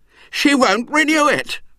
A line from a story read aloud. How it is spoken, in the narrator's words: said wildly